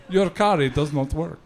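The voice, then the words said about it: Dracula-style accent. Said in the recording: “That's Dracula, by the way. that accent.”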